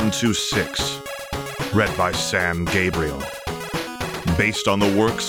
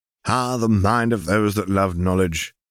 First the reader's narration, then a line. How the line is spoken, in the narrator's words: chuckled